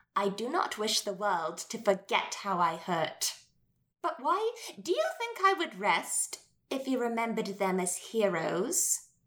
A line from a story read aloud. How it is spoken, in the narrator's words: She laughed, but it sheared the space between us like a sob